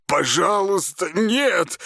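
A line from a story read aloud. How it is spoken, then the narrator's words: Moaned. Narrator (Russian): простонал Аристарх Петрович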